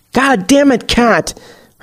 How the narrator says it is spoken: Her Jeff screeches within her mind

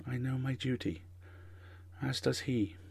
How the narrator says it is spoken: whispers

